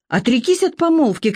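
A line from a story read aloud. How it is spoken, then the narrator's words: Shouting. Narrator (Russian): кричала она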